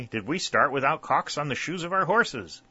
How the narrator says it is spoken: exclaimed Whitley

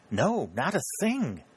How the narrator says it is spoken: exclaimed Mrs

